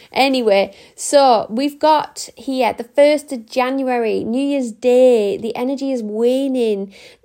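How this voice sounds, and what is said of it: Strained, failing voice. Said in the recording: “my voice is going again. It always does this when I get halfway through”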